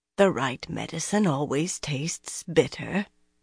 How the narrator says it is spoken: Linny murmured softly

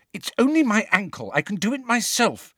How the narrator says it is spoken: said Ginny impatiently

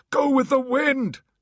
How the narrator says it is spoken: he shouted to Holly

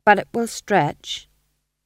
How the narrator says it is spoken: said his wife firmly

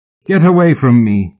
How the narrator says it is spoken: Mallory shouted

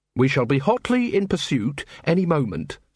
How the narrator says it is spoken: said Carrot calmly

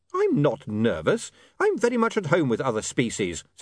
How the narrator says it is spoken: said William hotly

